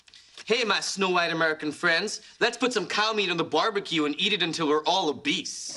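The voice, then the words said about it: Bad fake American accent. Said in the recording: “your American accent is terrible ... I think I'm talking in an American accent, but it really sounds like I'm wearing a set of giant dentures.”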